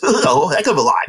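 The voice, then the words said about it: Good Tony Gwynn impression. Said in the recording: “pretty good Tony Gwynn impersonation”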